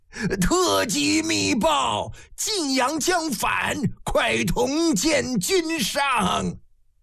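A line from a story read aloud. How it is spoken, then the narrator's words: Hoarse, urgent shout. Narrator (Chinese): 老长史桓厉疾步匆匆，嘶声喊得一句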